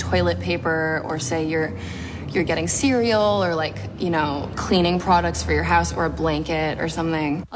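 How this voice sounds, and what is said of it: Slight American accent. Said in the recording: “A bit of an American accent.”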